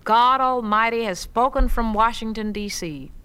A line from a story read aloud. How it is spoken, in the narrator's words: One old man shouted out